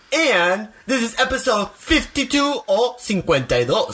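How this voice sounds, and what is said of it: Hispanic accent. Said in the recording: “my Hispanic beautiful accent”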